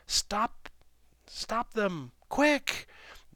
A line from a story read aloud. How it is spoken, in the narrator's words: cried the woman, waving her arms wildly in the air, desperately